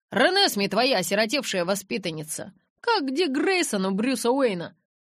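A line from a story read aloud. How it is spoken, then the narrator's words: Snort. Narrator (Russian): Джейкоб фыркнул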